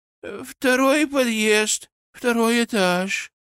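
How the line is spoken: Woman answering in monotone. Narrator (Russian): монотонным голосом ответила женщина

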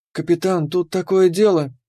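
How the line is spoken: Timid start. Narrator (Russian): робко начала Кира

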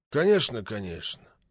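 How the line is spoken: Detached mutter. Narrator (Russian): отрешенно пробормотал Макетсон

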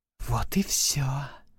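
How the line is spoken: Hissing. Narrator (Russian): прошипела

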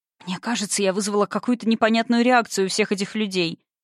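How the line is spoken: Muttering. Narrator (Russian): пробормотала

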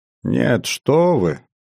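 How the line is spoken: Snorting young woman. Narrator (Russian): фыркнула серокожая девушка

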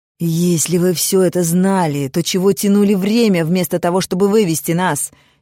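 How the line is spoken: Almost shouting, exasperated. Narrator (Russian): чуть не закричал Гран

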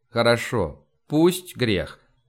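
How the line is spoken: Plain. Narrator (Russian): ответил я

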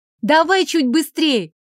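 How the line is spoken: Shout. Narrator (Russian): крикнула ему

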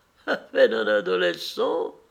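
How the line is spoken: Sneering laugh. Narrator (French): ricana-t-elle

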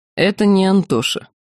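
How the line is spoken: Gloomy. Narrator (Russian): мрачно сообщил Чапай

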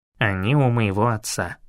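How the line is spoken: Dull, muffled reply. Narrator (Russian): глухо ответил Арт

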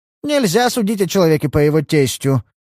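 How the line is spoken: Stern. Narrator (Russian): строго сказал Уэстмор

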